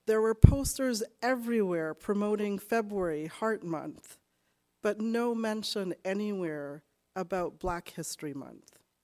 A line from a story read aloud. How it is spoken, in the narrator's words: She said tearfully